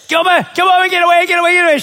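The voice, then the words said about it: Screaming. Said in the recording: “I'm screaming my lungs out at the dog.”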